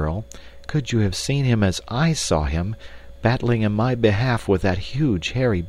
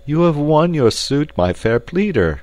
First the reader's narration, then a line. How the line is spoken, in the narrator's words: cried the captain